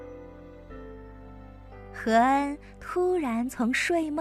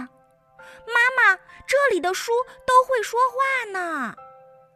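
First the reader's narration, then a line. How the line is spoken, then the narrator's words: Child calling out. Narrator (Chinese): 何恩这么一叫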